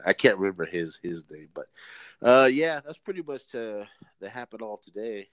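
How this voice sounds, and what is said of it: Voice sounds weird. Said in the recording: “my allergies kicked in. That's why I sound weird”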